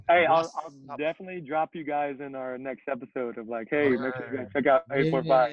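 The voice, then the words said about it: New York accent. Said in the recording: “what the hell is this New York accent?”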